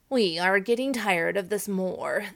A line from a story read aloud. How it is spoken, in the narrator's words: they said